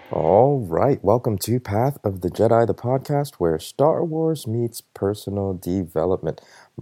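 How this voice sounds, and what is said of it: Tired, worn-out voice. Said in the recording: “I don't know if you could hear it in my voice. I'm a little wore out.”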